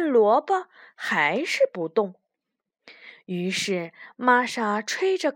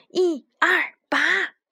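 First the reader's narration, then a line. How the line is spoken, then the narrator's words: Rhythmic group chant. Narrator (Chinese): 他们三个人都有节奏的喊道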